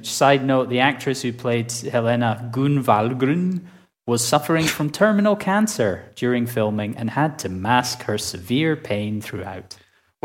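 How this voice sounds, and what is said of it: Put-on Swedish accent. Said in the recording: “you had to make me laugh with your Swedish accent ... It's the sound”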